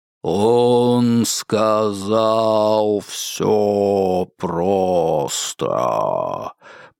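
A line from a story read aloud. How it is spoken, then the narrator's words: Terrifying drawn-out bass. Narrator (Russian): прогудела ручка страшным растянутым басом Вельзевула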